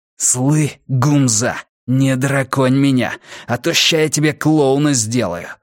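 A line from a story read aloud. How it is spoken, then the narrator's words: Breathless, hateful voiceless hiss. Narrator (Russian): Задыхаясь от мгновенной ненависти, безголосо прошипел ему Илья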